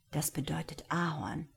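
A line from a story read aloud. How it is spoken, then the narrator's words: Whisper. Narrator (German): flüsterte Boris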